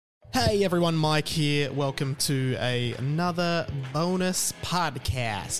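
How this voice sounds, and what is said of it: Put-on American accent. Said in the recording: “I don't know why I did that in an American accent”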